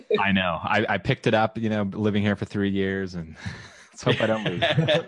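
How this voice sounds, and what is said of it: Strong Texan accent. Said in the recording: “that strong Texan accent you have there”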